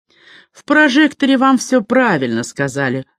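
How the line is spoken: Begins after deep sigh. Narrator (Russian): начала она, глубоко вздохнув

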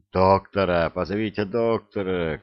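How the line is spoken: Shouting voices. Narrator (Russian): кричали

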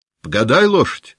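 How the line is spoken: Shout. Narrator (Russian): крикнул Денисов казаку

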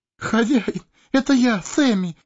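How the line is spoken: Sobbing. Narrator (Russian): всхлипнул хоббит

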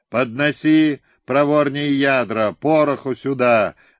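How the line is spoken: Hoarse shouting. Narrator (Russian): до хрипоты кричали канониры

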